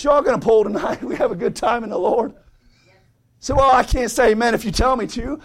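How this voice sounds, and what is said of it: Strained, hoarse voice. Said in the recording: “I'm already losing my voice.”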